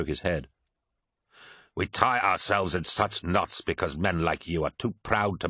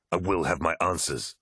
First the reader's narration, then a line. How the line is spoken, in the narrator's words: snarled Loken